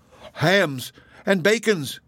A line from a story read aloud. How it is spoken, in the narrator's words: cried Worth